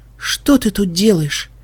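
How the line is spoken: Breathless. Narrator (Russian): выдохнула

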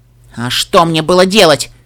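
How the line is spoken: Angry growl. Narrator (Russian): сердито прорычала Пегаска

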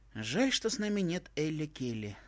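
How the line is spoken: Wistful sigh. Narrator (Russian): вздохнула Твай

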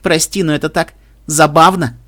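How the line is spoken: Snorting. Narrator (Russian): Рейнбу фыркнула

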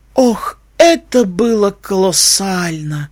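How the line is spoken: Blissful moan. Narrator (Russian): простонала блаженно

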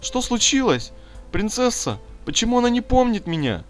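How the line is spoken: Whimpering. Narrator (Russian): захныкала Пинки

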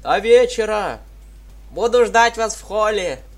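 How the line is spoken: Calling after. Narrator (Russian): Крикнула вслед Дитси

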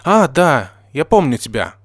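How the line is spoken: Exclaimed. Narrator (Russian): воскликнула Нина

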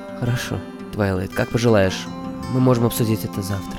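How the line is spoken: Very gentle. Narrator (Russian): произнесла принцесса Селестия как можно мягче

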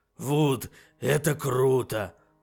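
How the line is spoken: Hoarse wheeze. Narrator (Russian): просипел Фаций

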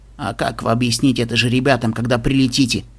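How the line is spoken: Quiet question. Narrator (Russian): тихо спросил Твинклшайн

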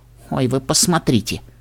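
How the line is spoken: Snort. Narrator (Russian): хмыкнула Лиза

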